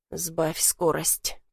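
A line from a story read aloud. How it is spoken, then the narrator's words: Through gritted teeth. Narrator (Russian): процедил Ром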